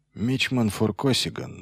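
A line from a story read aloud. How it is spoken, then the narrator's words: Sighing. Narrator (Russian): вздохнул Ильян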